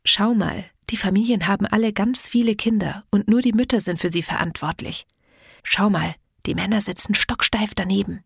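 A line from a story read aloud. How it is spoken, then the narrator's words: Mother whispering. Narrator (German): flüsterte meine Mutter meinem Vater zu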